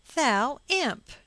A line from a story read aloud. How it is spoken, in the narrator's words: she cried